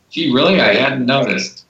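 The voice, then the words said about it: Sarcastic delivery. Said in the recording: “That was sarcasm, by the way.”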